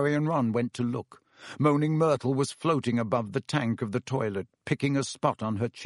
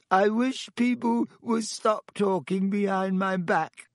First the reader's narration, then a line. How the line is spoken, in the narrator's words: said Myrtle in a voice choked with tears